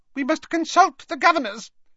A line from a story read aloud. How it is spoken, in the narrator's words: said Professor Flitwick in his squeaky little voice